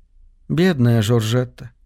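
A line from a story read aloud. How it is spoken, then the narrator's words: Sighing. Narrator (Russian): вздохнула Ливи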